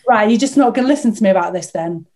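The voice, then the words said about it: Put-on Northern English accent. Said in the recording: “I think she was Northern. I'm doing a Northern accent”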